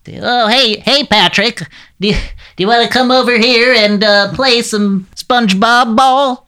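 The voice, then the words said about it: SpongeBob impression, wavering voice. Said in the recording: “I do a good SpongeBob ... that's really good ... With this sort of wavering voice.”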